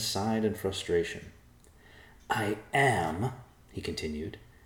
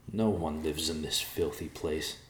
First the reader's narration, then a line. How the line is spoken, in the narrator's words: Evercloud muttered